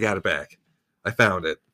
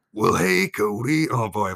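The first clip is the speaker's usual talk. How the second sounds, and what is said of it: Old man impression voice. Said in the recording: “Impersonations, obviously ... I'd bring out all the greats. Old man Bruce Springsteen, Barack Obama ... Those all sound Joe like Biden. The same exact person when you do them ... It's my old friend, old man Bruce Springsteen”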